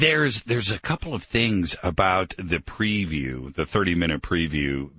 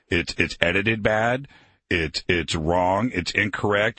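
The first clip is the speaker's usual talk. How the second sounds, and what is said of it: Imitates a film critic's voice. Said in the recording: “my best Ebert impression.”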